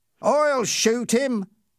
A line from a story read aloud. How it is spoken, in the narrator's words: Ernie cried